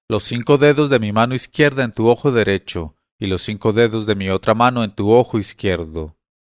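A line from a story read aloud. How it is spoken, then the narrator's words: Old woman shouting. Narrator (Spanish): me gritó la vieja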